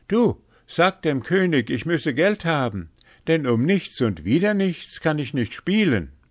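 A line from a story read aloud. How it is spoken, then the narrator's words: Calling out. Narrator (German): rief er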